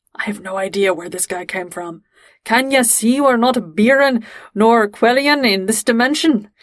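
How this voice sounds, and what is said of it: Thick Scottish accent. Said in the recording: “says in this really thick Scottish accent”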